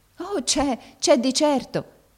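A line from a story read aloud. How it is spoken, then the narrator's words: Deeply moved woman exclaiming. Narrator (Italian): esclamò la barberina tutta commossa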